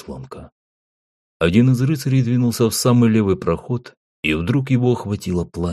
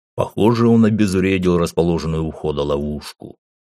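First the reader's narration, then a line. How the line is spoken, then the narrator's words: Snorting. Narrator (Russian): хмыкнул Гуга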